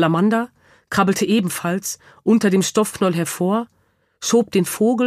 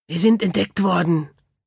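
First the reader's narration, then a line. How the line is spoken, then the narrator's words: Hiss. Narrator (German): zischte es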